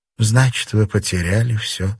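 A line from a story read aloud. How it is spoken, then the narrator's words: Sigh. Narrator (Russian): вздохнула Кейси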